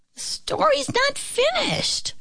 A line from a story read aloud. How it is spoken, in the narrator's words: the little pig squeaked